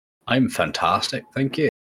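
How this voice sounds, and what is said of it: Decent put-on Scottish accent. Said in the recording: “That wasn't a half bad Scottish accent, so it wasn't.”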